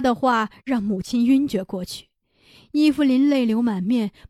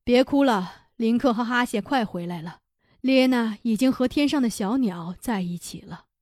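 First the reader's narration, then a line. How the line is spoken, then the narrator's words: Sighing. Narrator (Chinese): 尼都萨满叹息了一声，对女人们说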